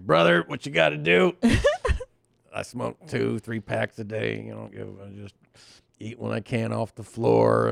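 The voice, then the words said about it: Imitates a heavy smoker's voice. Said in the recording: “pretty good Fed Smoker impression”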